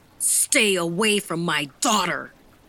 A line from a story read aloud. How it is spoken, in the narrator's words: the older man shouted